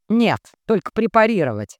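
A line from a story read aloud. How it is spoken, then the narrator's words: Near bark. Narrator (Russian): почти рявкнул невысокий доктор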